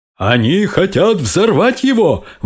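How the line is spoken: Exclaiming commander. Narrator (Russian): воскликнул командующий армией

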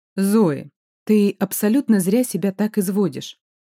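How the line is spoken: Calm grandmother. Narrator (Russian): спокойно произнесла бабушка

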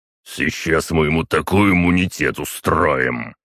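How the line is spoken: Deep bass voice. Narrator (Russian): пробасил на это Крислав

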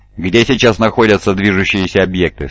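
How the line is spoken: Plain. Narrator (Russian): спросил Немиил

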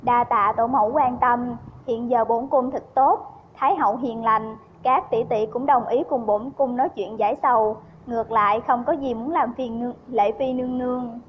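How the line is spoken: Smiling. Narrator (Vietnamese): Trần Từ mỉm cười nói

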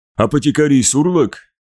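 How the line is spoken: Calm tone masking dislike. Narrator (Russian): приветствовал его Маган, пытаясь скрыть неприязнь за спокойным тоном

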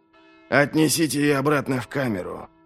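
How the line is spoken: Commanding. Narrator (Russian): велел он

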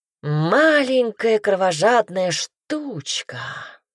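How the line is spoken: Purred. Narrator (Russian): промурлыкал Пайер

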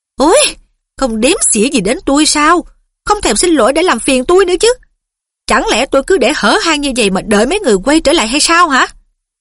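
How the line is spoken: Fat woman calling angrily. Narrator (Vietnamese): Bà béo giận dữ gọi

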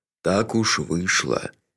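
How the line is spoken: Soft repetition. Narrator (Russian): мягко повторил Джуфин

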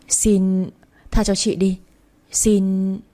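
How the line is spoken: Frightened stammering plea. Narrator (Vietnamese): Chị Hồng nhìn tôi với ánh mắt sợ hãi rồi chị lắp bắp cầu xin

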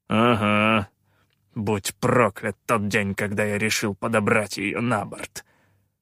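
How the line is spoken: Bitter, through teeth. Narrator (Russian): с горечью процедил Калаан

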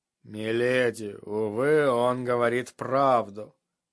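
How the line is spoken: Tired voice. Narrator (Russian): усталым голосом заметил сир Родрик

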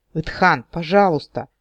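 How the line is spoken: Stunned pleading. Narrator (Russian): взмолился ошеломленный Эрин Рандир

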